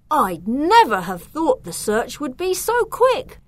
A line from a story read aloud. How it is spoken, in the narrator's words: exclaimed when he joined them